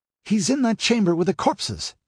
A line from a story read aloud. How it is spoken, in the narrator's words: exclaimed Murillo